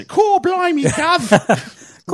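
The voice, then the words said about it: Put-on British accent. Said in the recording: “I've been faking this accent for a long time now. I'll go back to my usual... I'm going to go back to my old accent.”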